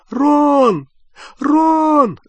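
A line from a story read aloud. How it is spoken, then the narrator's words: Calling, near sobbing. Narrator (Russian): звала Гермиона, уже почти рыдая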